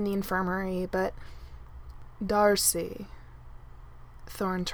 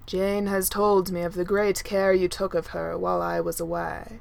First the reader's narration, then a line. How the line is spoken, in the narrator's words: Thor says gravely